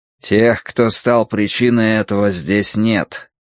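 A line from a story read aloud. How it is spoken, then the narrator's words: Grim. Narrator (Russian): сказал Сыма Цянь мрачно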